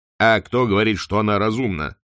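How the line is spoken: Plain. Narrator (Russian): спросил арк-канцлер

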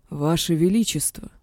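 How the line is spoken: King groaning. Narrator (Russian): простонал король Аэтлона

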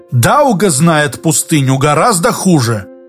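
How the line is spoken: Angry interjection. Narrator (Russian): сердито вмешался Григорий Иоганович

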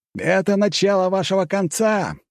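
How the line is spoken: Ominous shout. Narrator (Russian): прокричал зловеще Джон

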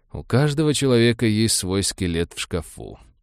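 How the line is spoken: Grim joking. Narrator (Russian): мрачно пошутил доктор

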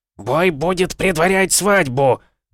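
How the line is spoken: Frenzied yelling. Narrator (Russian): заорал он, бешено выпучив глаза

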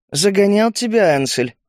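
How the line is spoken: Mocking question. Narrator (Russian): насмешливо спросила Галия

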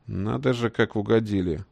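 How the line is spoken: Surprised mutter. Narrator (Russian): удивленно пробурчал Лесогрузов

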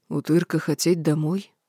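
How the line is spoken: Sad question. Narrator (Russian): грустно спросил Шинге

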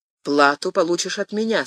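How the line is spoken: Plain. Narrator (Russian): сказал король

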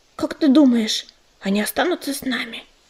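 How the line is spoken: Whisper. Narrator (Russian): шепнула она

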